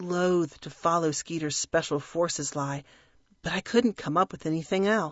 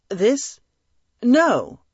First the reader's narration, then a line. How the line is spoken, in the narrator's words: I stammered